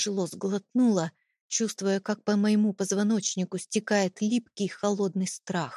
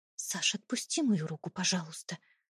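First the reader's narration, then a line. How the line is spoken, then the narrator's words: Quiet request, suppressed tremble. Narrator (Russian): тихо попросила я, стараясь не выдать дрожи в голосе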